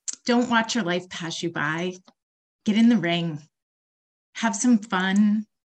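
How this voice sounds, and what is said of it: Emotional, choked-up speech. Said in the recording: “I'm getting emotional”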